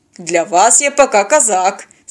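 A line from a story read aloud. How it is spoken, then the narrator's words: Condescending laugh, mustached man. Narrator (Russian): снисходительно рассмеялся усач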